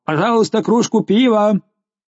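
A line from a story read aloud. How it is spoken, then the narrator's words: Thunderous voice. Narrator (Russian): он ответил громовым голосом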